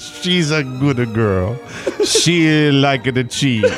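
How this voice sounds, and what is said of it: Put-on Italian accent. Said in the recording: “in my best Italian accent”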